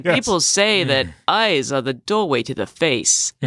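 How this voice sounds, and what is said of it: Imitates another person's voice. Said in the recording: “your Christopher Walken impression. That was pretty good.”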